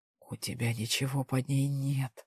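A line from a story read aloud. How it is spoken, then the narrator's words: Strained whisper. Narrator (Russian): сдавленно прошептал он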